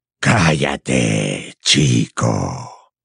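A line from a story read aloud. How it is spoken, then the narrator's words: Growled in serpent tongue. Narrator (Spanish): gruñó Gaunt en lengua parcel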